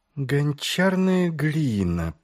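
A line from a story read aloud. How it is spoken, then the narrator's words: Drawling. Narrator (Russian): протянула Ангва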